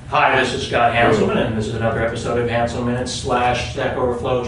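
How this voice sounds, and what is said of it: Put-on radio announcer voice. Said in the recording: “I'm going to turn on my radio voice now.”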